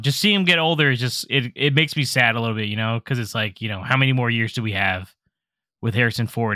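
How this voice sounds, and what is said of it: Choked-up, emotional voice. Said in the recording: “I'm getting all choked up here”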